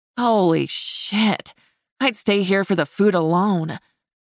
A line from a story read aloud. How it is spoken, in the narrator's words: I moaned